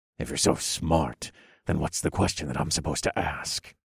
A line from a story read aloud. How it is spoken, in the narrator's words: The Warden muttered